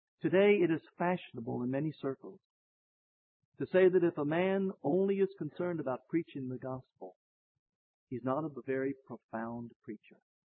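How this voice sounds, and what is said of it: Squeaky old man's voice. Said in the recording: “squeaky voice ... in this shriveled up old body”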